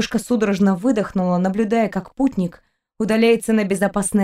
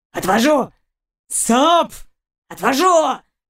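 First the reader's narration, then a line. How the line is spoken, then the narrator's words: Dog growling. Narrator (Russian): прорычал пес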